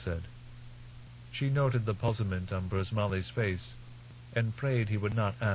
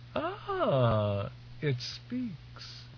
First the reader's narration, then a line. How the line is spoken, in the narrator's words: the young woman said, laughing